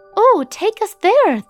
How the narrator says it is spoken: Thumbelina exclaimed

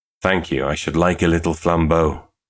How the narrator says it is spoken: said Angus gloomily

